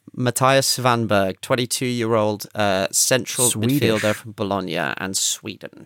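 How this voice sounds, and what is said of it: Usual voice. Nothing is said of it.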